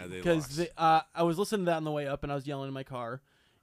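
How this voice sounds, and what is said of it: Slightly raspy voice. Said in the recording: “my voice sounds a little raspy ... because I was yelling quite a bit at the game”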